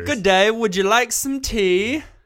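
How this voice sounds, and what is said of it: Put-on British accent. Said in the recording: “I leaned towards being British ... That's a really, really good accent”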